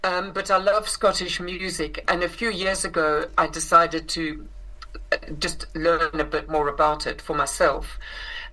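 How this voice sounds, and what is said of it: South African accent. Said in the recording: “I grew up in South Africa, which is where I inherited this accent.”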